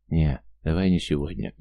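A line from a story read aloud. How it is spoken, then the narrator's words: Gentle refusal. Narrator (Russian): мягко отстранился я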